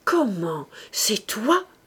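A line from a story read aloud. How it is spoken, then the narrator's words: Annoyed stammer. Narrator (French): L'architecte bégaya de contrariété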